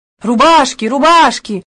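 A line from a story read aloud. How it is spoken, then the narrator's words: Group shouting. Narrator (Russian): закричала вся компания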